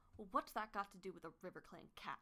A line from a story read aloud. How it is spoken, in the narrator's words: she spat